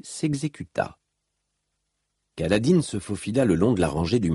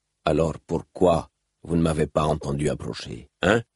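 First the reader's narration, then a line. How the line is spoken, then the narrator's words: Sneering laugh. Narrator (French): Kaladin ricana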